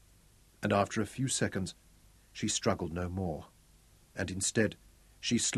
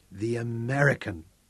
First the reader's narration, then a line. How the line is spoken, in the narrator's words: she exclaimed, with such force